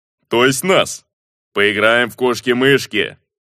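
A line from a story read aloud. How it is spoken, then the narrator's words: Chuckling. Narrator (Russian): хохотнул он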